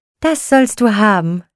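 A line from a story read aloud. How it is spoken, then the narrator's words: Call. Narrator (German): rief Christkindchen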